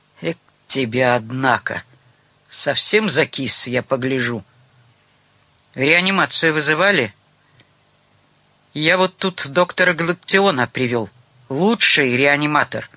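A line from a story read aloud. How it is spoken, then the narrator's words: Rough bandit-like wheeze. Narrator (Russian): разбойничий голос прохрипел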